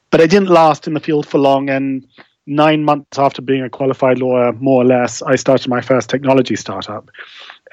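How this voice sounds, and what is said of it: Faint remnants of English accent. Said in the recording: “the kind of remnants of an English accent will betray, I was brought up in London”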